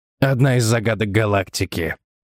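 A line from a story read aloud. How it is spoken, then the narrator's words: Gloomy reply. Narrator (Russian): мрачно ответил собеседник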